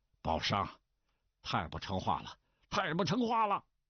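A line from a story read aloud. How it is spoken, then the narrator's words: Loud angry scolding. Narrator (Chinese): 李麻子满脸通红，满嘴飞出唾沫来，大声骂道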